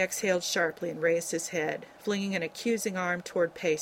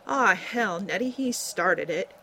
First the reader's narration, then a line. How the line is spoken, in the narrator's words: he protested in a deeply aggrieved tone